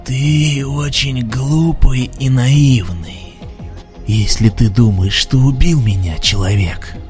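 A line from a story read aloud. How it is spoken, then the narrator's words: Rasping telepathic voice. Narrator (Russian): захрипел мыслеголос червя у Риза в голове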